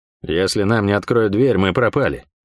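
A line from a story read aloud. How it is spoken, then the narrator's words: Calm but betraying voice. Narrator (Russian): говорил он спокойно, но голос меня не обманул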